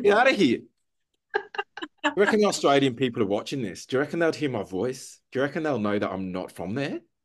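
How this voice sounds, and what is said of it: Put-on Australian accent. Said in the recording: “your Kath and Kim style accent”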